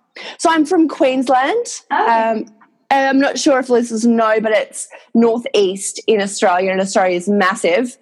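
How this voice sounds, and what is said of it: Australian accent. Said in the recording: “if you can hear my accent, I am Australian”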